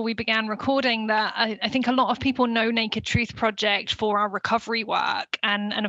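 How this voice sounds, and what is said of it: British accent. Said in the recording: “lovely accent, she is British”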